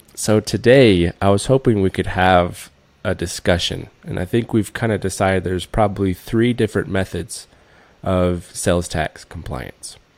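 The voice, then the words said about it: Deeper, congested voice from a cold. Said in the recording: “someone kind of got the sniffles ... The deeper voice with the cold ... that's the radio voice”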